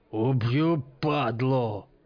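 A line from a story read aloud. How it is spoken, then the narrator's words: Furious hiss. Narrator (Russian): прошипел разъяренно Мачете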